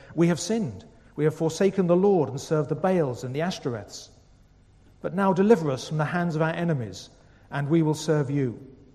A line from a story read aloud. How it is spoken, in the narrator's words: They cried out to the Lord and said